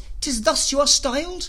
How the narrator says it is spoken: cried the riders

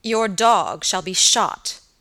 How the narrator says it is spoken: answered Sir Michael angrily

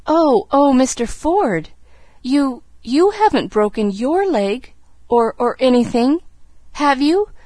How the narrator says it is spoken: she gasped

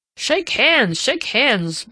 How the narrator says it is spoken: boomed Uncle Aubrey from across the table

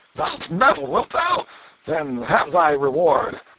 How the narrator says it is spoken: Canty roared out

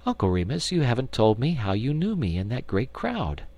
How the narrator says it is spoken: she laughed and said

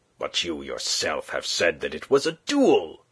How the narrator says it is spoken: cried the lieutenant, between anger and bewilderment

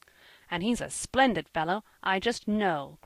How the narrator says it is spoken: cried Jasper, waxing enthusiastic

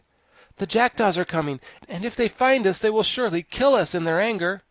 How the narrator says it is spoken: Tip exclaimed

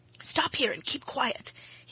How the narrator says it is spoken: whispered, when they had retreated out of all danger of being overheard

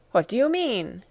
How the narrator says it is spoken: I cried

